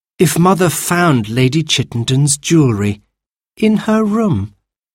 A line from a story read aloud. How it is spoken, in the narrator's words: Jane said dreamily